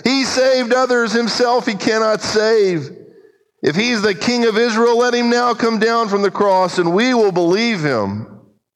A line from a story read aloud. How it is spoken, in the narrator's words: mocking with the scribes and elders, said